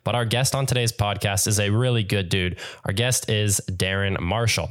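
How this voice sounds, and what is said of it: Terrible-sounding sick voice. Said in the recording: “apologies if my voice sounds terrible right now. I am sick”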